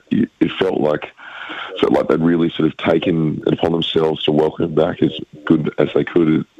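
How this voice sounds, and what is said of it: Worn-out, rough voice. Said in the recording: “you can hear from my voice, I'm a bit worse for wear after the weekend”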